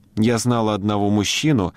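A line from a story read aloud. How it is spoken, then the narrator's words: Plain. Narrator (Russian): сказала она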